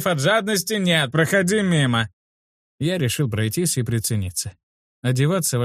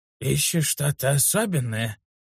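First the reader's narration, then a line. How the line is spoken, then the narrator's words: Hoarse voice. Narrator (Russian): Чей-то хриплый голос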